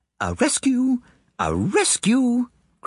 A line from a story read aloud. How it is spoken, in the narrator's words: cried Kitty Mooney